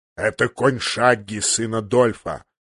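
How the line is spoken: Growled at a boy. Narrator (Russian): рыкнул он на мальчишку

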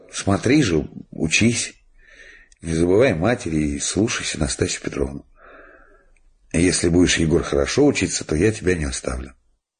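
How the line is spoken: Sad, gentle. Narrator (Russian): грустно улыбнулся и сказал

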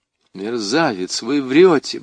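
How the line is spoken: Mutter. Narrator (Russian): бормочу я

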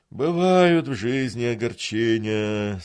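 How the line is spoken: Drawn-out sigh. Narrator (Russian): со вздохом протянул Гундос

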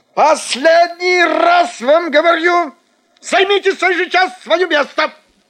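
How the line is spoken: Nervous shout. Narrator (Russian): почему-то закричал фотограф, и лицо его сделалось очень нервным

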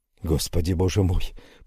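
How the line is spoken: Whispered. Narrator (Russian): прошептал я

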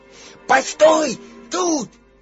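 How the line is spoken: Shout. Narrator (Russian): крикнул он

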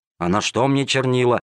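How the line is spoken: Grumbling. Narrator (Russian): ворчал незадачливый проситель

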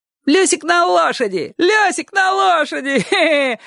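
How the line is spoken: Children shouting. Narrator (Russian): кричали соседские ребята

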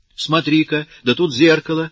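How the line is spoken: Sudden exclamation. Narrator (Russian): вдруг воскликнула она

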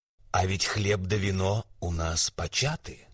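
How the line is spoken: Plain, eagle. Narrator (Russian): говорит орел

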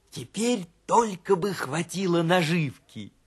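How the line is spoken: Hedgehog whispering. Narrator (Russian): прошептал ежик

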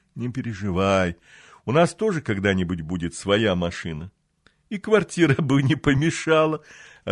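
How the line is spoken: Laughing. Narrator (Russian): рассмеялась она

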